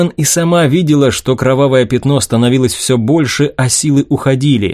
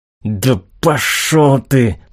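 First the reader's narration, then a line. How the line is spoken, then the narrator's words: Through gritted teeth. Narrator (Russian): процедила де Кабрера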